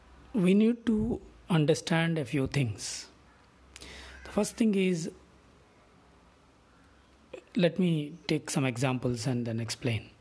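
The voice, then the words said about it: Weak, quiet voice, losing voice. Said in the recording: “Sorry for the low volume. Suddenly my voice has gone.”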